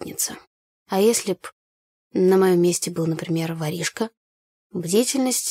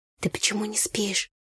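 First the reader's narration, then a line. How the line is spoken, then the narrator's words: Quiet question. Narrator (Russian): негромко спросила я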